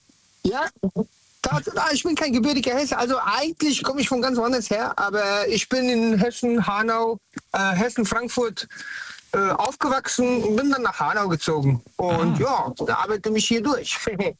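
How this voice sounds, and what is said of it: Slight Bavarian-sounding German accent. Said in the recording (German): “vom Akzent gedacht, kommt doch aus einer anderen Ecke Deutschlands ... du gibst mir so ein bisschen diese bayerischen”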